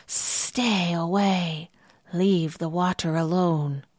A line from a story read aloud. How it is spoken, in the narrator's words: a huge winged serpent hissing